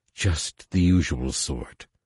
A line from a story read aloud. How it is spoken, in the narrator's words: Saba said, hissing with amusement